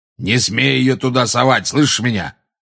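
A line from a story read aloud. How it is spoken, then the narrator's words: Roar. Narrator (Russian): проревел Грюм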